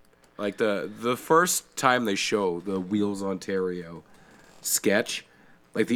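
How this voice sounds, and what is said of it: Usual voice. Nothing is said of it.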